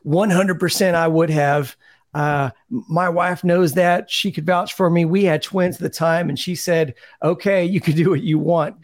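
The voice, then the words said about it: Imitates another person's voice. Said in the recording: “I can't even read these quotes without doing a bad Kenny Powers impression.”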